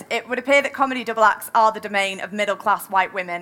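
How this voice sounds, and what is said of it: Manchester accent. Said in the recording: “saying that in my Manchester accent.”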